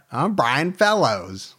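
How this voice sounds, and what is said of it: Poor imitation of another person's voice. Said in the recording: “That's a horrible Tracy Morgan impersonation ... Was awesome, but it was really bad.”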